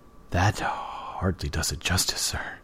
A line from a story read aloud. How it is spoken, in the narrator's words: choked